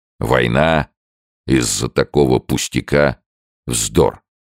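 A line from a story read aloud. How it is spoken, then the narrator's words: Grumbling. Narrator (Russian): проворчал Сомс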